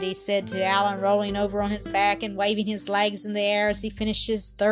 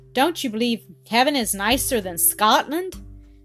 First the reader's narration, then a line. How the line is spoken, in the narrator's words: exclaimed Jean reprovingly